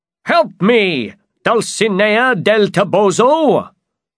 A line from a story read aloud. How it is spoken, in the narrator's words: Don Quixote shouted